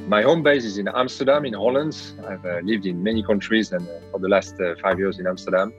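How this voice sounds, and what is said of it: French accent in English. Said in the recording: “I'm a European from France, as you can hear in my accent”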